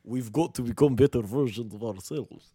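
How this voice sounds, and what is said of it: Imitates another person's voice. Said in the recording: “That's it. That was Matthew.”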